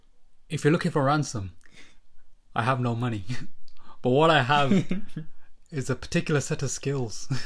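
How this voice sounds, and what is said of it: Put-on Scottish accent. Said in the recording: “I don't know why you sound Scottish.”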